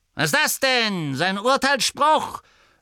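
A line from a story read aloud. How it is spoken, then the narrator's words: Voice swelling with anger. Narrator (German): sagte Gaunt mit zornig anschwellender Stimme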